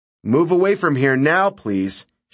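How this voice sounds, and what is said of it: Stern voice. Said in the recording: “she said in a stern voice.”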